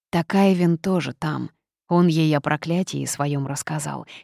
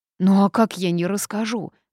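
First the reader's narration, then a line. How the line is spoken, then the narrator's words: Howled. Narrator (Russian): взвыл он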